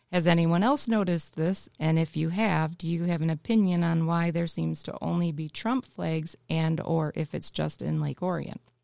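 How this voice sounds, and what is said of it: Polished radio-announcer reading voice. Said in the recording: “That's very well read. You actually have a very good radio voice right now.”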